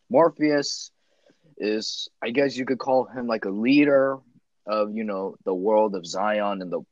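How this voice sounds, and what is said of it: Usual voice. Nothing is said of it.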